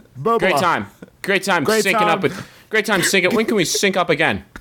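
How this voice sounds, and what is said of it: Slick Hollywood power broker voice. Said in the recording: “You sound like a Hollywood power broker.”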